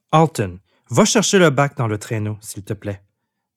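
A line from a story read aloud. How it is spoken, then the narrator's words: Plain. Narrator (French): demanda Jim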